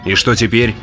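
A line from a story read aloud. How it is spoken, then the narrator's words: Plain. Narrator (Russian): спросил я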